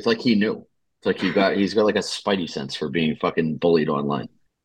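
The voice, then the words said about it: Strong Boston accent. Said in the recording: “How fucking horrible is my accent tonight? ... I can't fucking hide the Boston accent either.”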